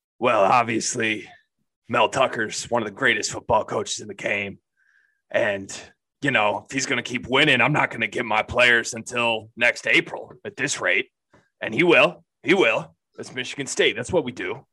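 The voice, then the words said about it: Bad imitation of another person's voice. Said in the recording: “That's a really bad Tom Izzo impression. ... was that Tom Izzo or Harrison Ford?”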